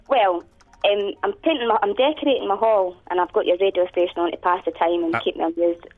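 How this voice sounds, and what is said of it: Scottish accent. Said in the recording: “in West Lothian, which I think is in Scotland ... Oh, what a lovely accent you've got. ... I didn't understand that”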